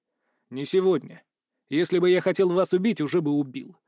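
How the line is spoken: Rough, curt. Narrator (Russian): бросил грубо

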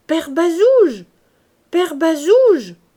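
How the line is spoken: Loud shouting. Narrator (French): cria Gervaise en haussant la voix

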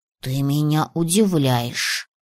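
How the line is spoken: Whisper. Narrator (Russian): прошептал дракон

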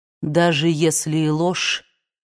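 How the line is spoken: Deathly flat, calm voice. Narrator (Russian): сказал Эшли мертвенно ровным, спокойным голосом

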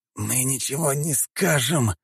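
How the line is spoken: Hissed. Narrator (Russian): прошипел один из них

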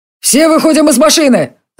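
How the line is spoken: Shouting. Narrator (Russian): закричал Джари

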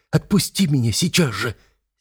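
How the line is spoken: Fierce whisper. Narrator (Russian): свирепым шепотом отвечает Рика

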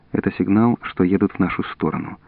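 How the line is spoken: Quiet. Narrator (Russian): тихо сказал Жорж

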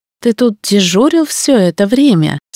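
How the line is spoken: Plain. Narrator (Russian): спросила

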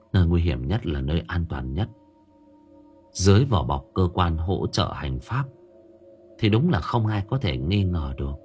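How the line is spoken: Muttering. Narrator (Vietnamese): Hân lẩm bẩm

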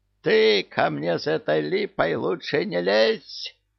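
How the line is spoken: Shrill squeal. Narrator (Russian): взвизгнул Кощей

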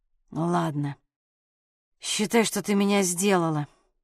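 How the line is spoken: Muttered. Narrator (Russian): пробормотал Саша

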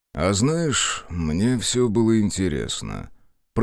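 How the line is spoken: Drawling. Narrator (Russian): протянул брат Кармунд

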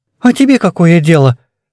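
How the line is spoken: Sharp. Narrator (Russian): резко ответил Гриша

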